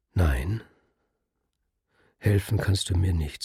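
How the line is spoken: Plain. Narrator (German): sagte er

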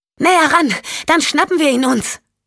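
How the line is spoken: Calling out. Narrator (German): rief Michelle

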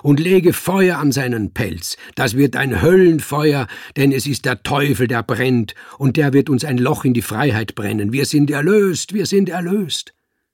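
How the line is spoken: Calling out. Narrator (German): rief

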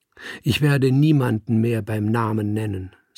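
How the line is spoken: Plain. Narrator (German): sagte sie

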